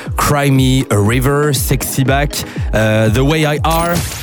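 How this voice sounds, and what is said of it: Put-on accent for English titles. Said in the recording (French): “J'ai sorti mon meilleur accent.”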